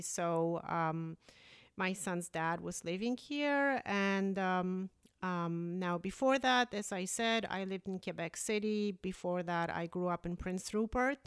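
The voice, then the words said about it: Polish accent. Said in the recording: “originally I'm Polish, hence the accent.”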